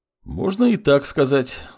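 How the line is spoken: Sighing. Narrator (Russian): вздохнул молодой бог

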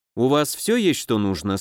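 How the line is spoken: Calm question. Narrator (Russian): спросила она спокойно, как обычно

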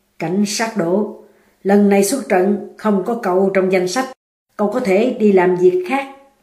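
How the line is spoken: Cold. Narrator (Vietnamese): Cấp trên lạnh lùng nói

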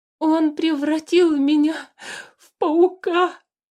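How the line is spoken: Sobbing lament. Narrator (Russian): Сквозь рыдания причитал хозяин дома

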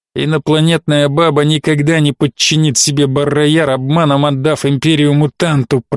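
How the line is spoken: Through gritted teeth. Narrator (Russian): процедил сквозь зубы Фордериан

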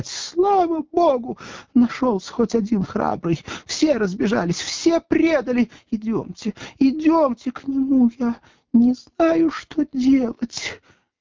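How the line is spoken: Sobbing. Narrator (Russian): продолжая рыдать, она

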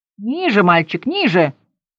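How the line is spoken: Barked. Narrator (Russian): рявкнул мистер Кумбс

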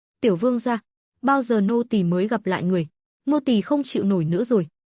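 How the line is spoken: Sighing. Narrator (Vietnamese): Vương Khuynh Từ thở dài

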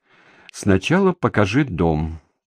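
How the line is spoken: Gloomy. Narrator (Russian): произнесла она мрачно

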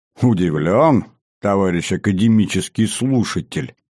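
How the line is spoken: Good-natured chuckle, general. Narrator (Russian): добродушно хмыкнул генерал-лейтенант

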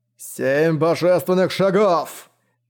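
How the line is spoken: Roar. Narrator (Russian): проревел

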